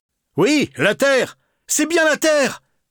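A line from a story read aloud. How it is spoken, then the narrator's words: Exclaimed. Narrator (French): s'écria Brillant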